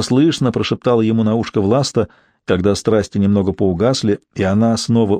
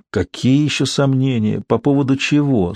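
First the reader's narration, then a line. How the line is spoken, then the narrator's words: Sleepy cooing man. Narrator (Russian): сонно проворковал мужчина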